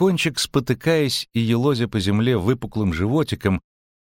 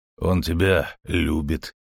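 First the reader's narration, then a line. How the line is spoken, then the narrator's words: Grumble. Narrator (Russian): проворчал Геральт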